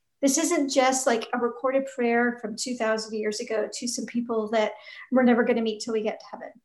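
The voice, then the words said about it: Sore, slightly strained voice. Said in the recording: “My voice is a little sore today”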